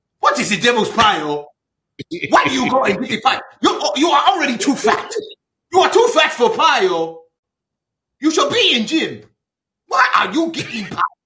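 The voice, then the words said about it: Put-on Nigerian accent. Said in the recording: “Godfrey's Nigerian accent is very much like my dad”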